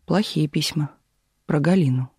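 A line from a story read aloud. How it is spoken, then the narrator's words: Quiet. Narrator (Russian): тихо ответил Демьяныч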